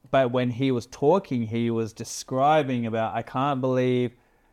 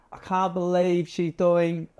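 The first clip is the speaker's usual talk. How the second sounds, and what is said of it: Failed attempt at imitating an accent. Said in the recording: “I should try and do his accent... That was terrible... That was just your accent.”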